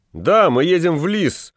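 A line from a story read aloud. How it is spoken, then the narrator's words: Fat man shouting. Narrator (Russian): закричал толстяк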